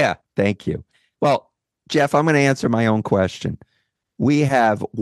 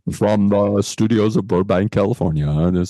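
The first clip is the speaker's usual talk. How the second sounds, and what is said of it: Put-on radio announcer voice. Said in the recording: “I'm going to speak in my as close to an announcer voice as I can get”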